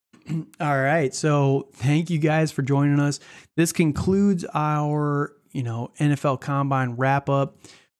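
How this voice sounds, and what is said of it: Hoarse, fading voice. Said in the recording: “I'm losing my voice as we speak here.”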